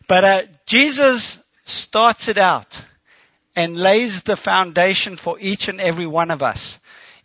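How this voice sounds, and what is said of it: Unusual accent with New York influence. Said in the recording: “He's got a funny accent... we did work in New York for a while, so that's why the accent's changed a bit.”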